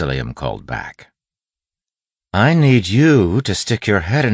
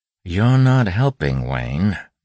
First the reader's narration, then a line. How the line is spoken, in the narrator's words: Waxillium said calmly